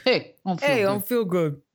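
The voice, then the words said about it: Exaggerated Jersey Shore-style imitated voice. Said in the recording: “I make it more and more Jersey Shore ... I do a Scott Baio impression”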